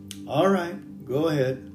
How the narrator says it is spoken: he said

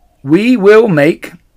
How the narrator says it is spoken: said Mr

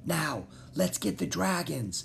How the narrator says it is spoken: said, still whispering

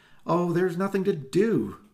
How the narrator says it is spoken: Susie cried

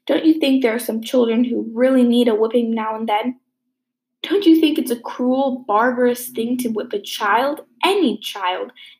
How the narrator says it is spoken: exclaimed Anne, her face flushing with earnestness

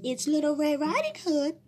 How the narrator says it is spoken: called the wolf in a little girl voice

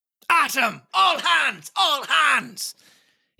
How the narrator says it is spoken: roared in a voice of thunder

